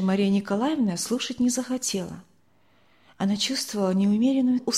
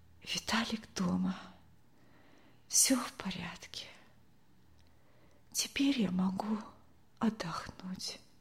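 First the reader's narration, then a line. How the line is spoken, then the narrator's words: Whisper. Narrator (Russian): прошептала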